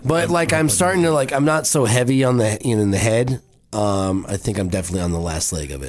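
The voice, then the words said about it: Voice still sounds sick. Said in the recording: “my voice is still trying to... Bleh ... It is still there a little bit.”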